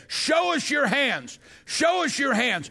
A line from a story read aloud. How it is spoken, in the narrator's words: they would shout